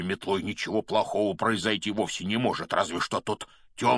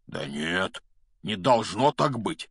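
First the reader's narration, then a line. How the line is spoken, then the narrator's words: Trembling objection. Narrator (Russian): возразил Хагрид дрожащим голосом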